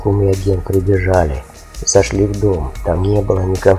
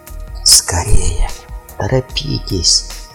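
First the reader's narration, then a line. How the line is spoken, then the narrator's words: Wise woman's whisper. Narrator (Russian): ведунья прошептала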